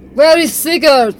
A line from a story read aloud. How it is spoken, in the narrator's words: Inga had to shout above the reverberating groan that seemed to come from every passageway at once